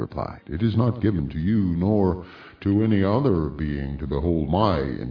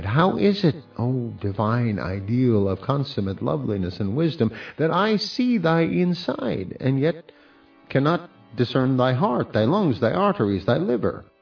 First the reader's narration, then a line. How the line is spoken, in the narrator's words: I cried